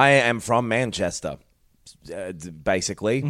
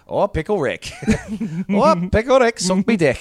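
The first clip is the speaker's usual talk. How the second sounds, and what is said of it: Put-on Liverpool-like accent. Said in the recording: “that is not a Mancunian accent that I'm doing, by the way. It's like a fucking Liverpool bullshit thing. ... it's a weird combo. ... That is Liverpool.”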